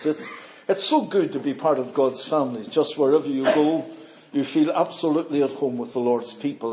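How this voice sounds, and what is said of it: Northern Irish accent. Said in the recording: “You'll detect from my accent, I'm not from here ... I'm from Belfast, Northern Ireland.”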